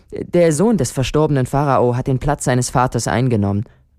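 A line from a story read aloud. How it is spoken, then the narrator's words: Plain. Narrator (German): antwortete Sinuhet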